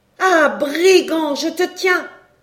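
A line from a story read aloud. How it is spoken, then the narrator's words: Shouted. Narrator (French): cria-t-elle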